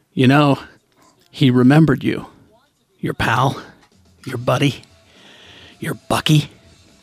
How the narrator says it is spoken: Crossbones kneels defeated and mutters

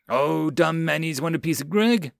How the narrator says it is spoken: Greg sneered

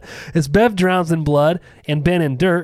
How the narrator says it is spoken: he screams for her, reading the poem

